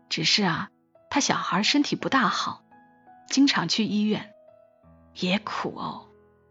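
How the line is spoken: Mother's hushed voice. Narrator (Chinese): 母亲压低了声音跟我讲

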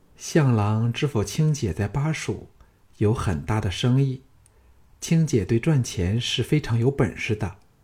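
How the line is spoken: Soft, girlish, coquettish. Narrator (Chinese): 仍像少女般娇痴的美妻子柔声说

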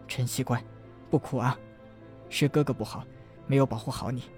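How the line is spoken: Soft, gentle. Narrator (Chinese): 陈南柔声道

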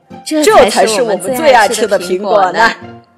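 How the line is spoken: Happy laughter. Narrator (Chinese): 小刺猬开心地笑了起来

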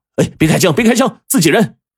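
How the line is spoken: Hurried shout in unison. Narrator (Chinese): 赶紧就齐声喊道

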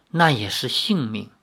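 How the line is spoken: Soft sigh. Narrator (Chinese): 灵月公主轻叹一声，说

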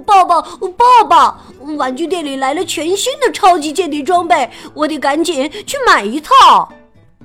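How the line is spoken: Breathless shouting. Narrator (Chinese): 他气喘吁吁地喊着

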